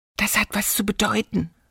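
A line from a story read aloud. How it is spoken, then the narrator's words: Whispering. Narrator (German): wisperte Elli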